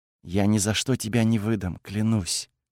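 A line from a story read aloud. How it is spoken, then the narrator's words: Passionate whisper. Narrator (Russian): Кайла горячо выдохнула, прошептав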